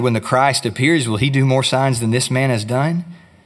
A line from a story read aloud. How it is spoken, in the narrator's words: the crowd muttering